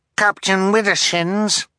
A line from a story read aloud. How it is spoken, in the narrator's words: Violet called, her voice muffled through her helmet